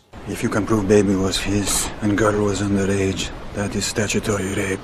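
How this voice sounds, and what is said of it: Stiff, careful Russian accent. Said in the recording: “Russian accent ... Mortensen does a pretty creditable job here ... It's not that the sounds are off. They're all pretty good. ... It just feels a little stiff and a little careful. The accent hasn't quite settled in yet.”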